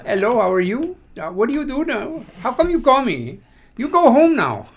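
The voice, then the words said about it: Put-on foreign accent. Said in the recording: “Practice your accents when people call you”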